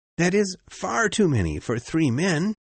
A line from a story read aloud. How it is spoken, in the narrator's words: whispered Conseil